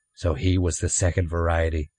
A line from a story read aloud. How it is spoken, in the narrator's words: Hendrix murmured